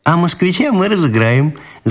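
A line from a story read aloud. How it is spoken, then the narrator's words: Laughing. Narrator (Russian): засмеялась Ниночка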